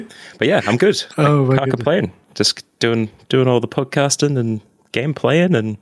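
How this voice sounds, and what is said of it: Usual voice. Nothing is said of it.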